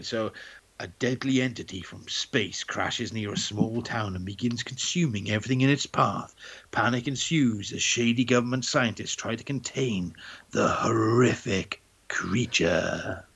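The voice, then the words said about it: Dramatic movie trailer narrator voice. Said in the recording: “You could do trailers. ... that's my trailer voice.”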